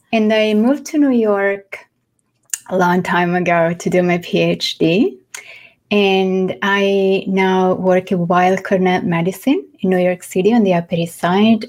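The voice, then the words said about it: Mixed Italian and French accent. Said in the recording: “I am from Florence in Italy. So my accent is a mix of Italian, French, which is my second language, and, well, I guess English at this point.”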